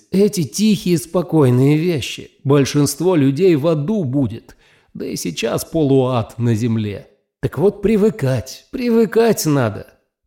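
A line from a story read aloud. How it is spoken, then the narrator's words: Groaning. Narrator (Russian): даже застонал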